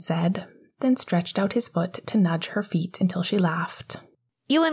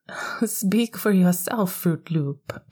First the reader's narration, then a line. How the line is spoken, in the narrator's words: Pascal laughed